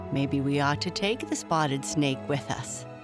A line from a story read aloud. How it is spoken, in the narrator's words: chuckled her friend